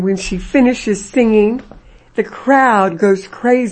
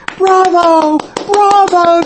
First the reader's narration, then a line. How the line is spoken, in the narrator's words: yell